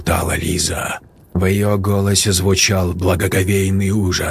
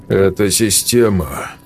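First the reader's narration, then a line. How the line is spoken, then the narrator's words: Gloomy correction. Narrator (Russian): мрачно поправил Сергей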